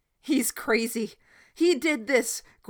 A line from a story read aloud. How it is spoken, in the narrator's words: Gordon cried out